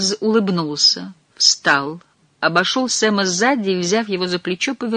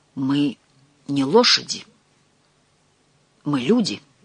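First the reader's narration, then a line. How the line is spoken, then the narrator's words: Strangled voice. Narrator (Russian): сдавленным голосом произнес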